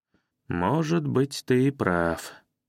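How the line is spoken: Doubtful drawl. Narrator (Russian): с сомнением протянул я

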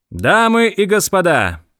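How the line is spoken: Loud. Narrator (Russian): громко произнес

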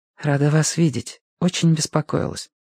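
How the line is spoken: Quiet whisper. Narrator (Russian): шепнула мне вполголоса

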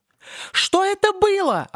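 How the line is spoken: Offended squeak. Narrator (Russian): оскорбленно пищала Мак-Канарейкл

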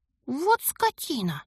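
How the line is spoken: Hissed. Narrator (Russian): прошипела я

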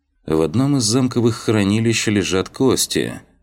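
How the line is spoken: Dry, indifferent tone. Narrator (Russian): сухим безразличным тоном произнес глава одного из самых могущественных магистратов Алкмены

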